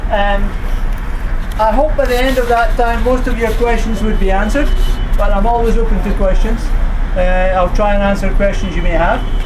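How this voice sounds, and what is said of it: Scottish accent. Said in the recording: “You may have picked up something from the accent that originally I'm from Scotland”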